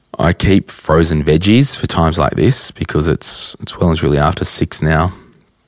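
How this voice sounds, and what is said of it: Hoarse, nearly lost voice. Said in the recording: “sorry, my voice is actually gone now.”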